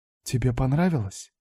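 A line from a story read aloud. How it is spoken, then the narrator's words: Whisper. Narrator (Russian): прошептала она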